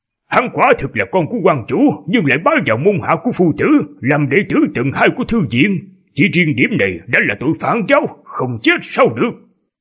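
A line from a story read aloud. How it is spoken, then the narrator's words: Stern shout. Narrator (Vietnamese): Ông nghiêm giọng mà quát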